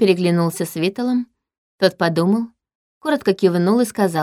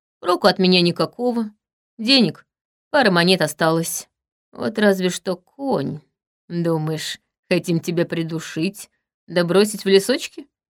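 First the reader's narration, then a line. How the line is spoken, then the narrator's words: Scoffing grunt. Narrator (Russian): хмыкнул Чарим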